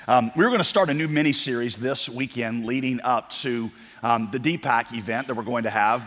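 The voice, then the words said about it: Nasal, congested voice. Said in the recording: “if I sound a little nasally ... It's not your ears, it's my voice.”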